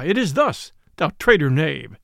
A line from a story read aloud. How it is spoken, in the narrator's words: cried the friar